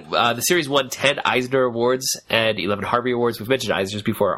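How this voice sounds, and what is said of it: Stuffy, congested voice. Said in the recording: “it sounds so stuffy to me as I'm trying to talk right now”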